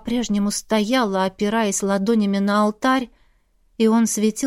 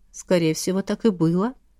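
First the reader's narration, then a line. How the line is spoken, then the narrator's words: Soothing lulling tone. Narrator (Russian): Убаюкивающим тоном заговорила Ладмира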